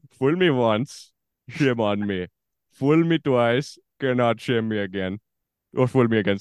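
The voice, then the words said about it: Indian-accented George W. Bush impression. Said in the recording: “an Indian guy doing his best George W. Bush”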